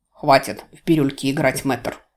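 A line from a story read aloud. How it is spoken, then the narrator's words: Growling. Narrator (Russian): прорычал он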